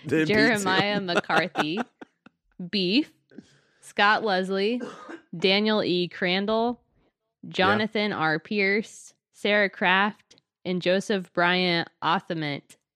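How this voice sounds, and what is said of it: Congested, stuffy voice. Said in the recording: “because I have a cold.”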